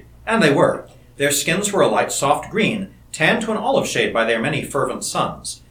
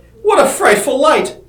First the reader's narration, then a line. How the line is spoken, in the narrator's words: exclaimed Sitar